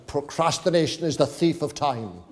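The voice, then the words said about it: Put-on Welsh accent. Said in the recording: “this is what it sounds like in a Welsh accent.”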